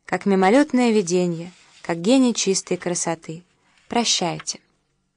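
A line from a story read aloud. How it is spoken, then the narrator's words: Beautiful singing voice. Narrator (Russian): вдруг удивительно красивым голосом пропел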